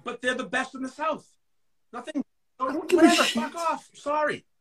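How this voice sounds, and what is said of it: Yelling angrily. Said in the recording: “Why are you yelling at me? ... I'm yelling at everybody.”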